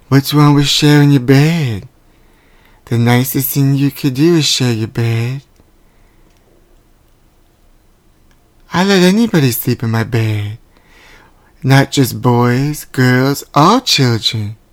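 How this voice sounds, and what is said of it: Imitates another person's voice. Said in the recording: “my imitation? ... That was spot on. That was amazing.”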